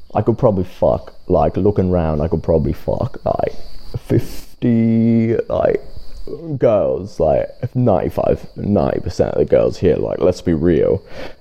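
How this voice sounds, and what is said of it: Put-on accent. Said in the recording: “I'm so sick of doing that accent”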